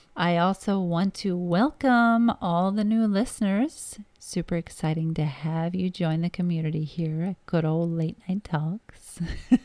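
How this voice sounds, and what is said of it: Slightly crackly, rough voice. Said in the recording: “My voice is a bit off tonight... It's a little crackly.”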